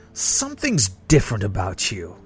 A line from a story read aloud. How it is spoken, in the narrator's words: snarled